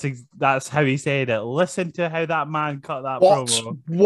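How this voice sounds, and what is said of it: Usual voice. Nothing is said of it.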